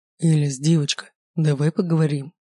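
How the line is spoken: Soothing voice. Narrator (Russian): начал говорить он успокаивающим голосом

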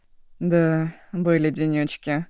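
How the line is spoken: Flat impassive voice. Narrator (Russian): бесстрастным голосом подтвердил Агун

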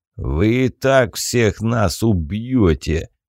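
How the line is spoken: Low growl. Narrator (Russian): глухо прорычал Тур

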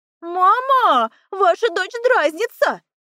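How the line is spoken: Joyful yelling sister. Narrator (Russian): радостно заорала сестра

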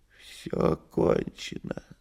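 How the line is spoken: Weak voice. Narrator (Russian): слабым голосом сказал кот

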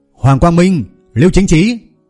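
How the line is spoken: Loud shout. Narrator (Vietnamese): Mí mắt của Lâm Hiểu Phong run lên một chút, hét lớn

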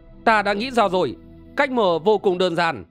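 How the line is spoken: Young woman, smiling exclamation. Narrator (Vietnamese): Nàng chợt mỉm cười thốt lên

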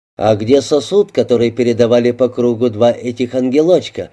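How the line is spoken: Plain. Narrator (Russian): спросил Аллен

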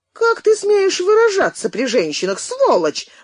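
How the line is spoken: Yelled. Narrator (Russian): заорала она

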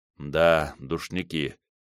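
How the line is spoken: Mumbling. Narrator (Russian): пробормотал он

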